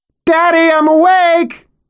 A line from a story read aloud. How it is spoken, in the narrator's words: she screams at some bleak hour when she is the first in the house to rise